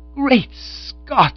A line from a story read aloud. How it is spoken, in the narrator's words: I exclaimed